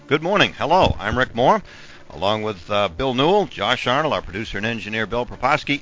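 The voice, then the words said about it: Strained, partly lost voice. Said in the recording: “I don't know where my voice went.”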